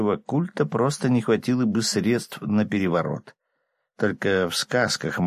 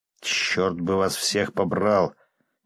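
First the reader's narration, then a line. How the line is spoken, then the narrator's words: Displeased grumble. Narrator (Russian): недовольно пробурчал я, угодив ногой в яму, прикрытую толстым слоем мха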